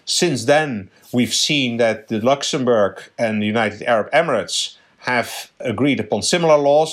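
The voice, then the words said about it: Subtle Dutch accent. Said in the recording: “a subtle accent. ... The Netherlands is your original home.”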